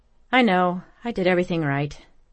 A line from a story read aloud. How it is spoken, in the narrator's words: sighed